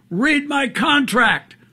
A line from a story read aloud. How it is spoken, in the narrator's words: over his shoulder yelled out